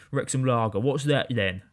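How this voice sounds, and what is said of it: Put-on southern English accent. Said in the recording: “Which is a good southern accent, I think, actually. ... What a great impression that is.”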